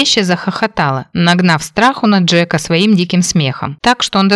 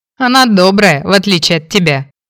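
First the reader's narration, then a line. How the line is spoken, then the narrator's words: Smirking. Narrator (Russian): хмыкнул Фрэнк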